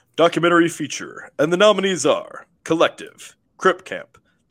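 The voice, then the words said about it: Announcer voice. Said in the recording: “in my announcer voice”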